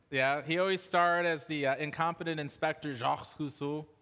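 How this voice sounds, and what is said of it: Put-on French accent. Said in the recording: “my best French impression.”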